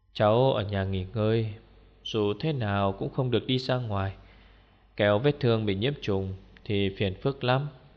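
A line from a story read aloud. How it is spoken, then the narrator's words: Sighing old woman. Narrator (Vietnamese): Bà thở dài nói với tôi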